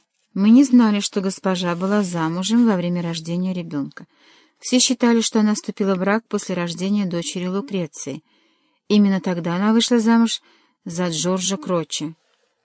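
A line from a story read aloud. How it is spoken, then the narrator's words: Muttered. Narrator (Russian): пробормотал Паллавичини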